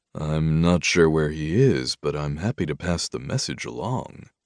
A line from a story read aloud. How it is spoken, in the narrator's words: I drawled